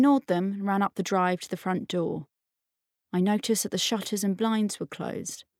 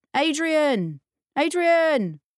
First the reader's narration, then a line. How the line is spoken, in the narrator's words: press shouted